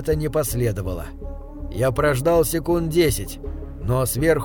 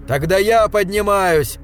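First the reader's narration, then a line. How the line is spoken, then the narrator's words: Desperate trembling shout. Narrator (Russian): В отчаянии выкрикнул я и, дрожа крупной дрожью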